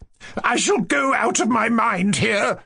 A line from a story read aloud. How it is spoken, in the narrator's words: cried Madame Epanchin